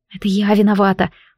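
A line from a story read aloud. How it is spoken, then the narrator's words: Whisper through cold lips. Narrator (Russian): прошептала я похладевшими губами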